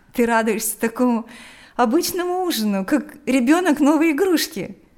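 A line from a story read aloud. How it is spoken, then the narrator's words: Laughing. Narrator (Russian): смеялась Лика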